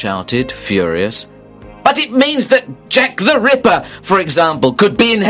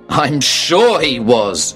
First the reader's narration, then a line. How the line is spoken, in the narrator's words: I said angrily